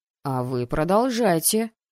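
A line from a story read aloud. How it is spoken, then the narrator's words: Menacing teacher. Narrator (Russian): Грозно навис преподаватель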